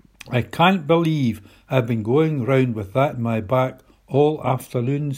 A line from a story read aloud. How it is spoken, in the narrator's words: said Chloe